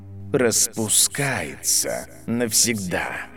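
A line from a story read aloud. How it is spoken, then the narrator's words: Hissing professor. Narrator (Russian): прошипел профессор Зельеварения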